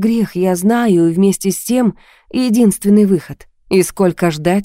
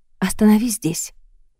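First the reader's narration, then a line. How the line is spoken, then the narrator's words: Quiet. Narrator (Russian): тихо сказала я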